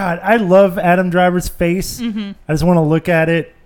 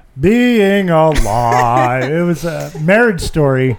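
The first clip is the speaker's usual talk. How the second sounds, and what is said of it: Imitates another person's voice. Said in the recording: “Good Adam Driver impersonation”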